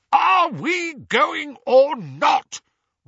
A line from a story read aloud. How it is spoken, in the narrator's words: roared Uncle Vernon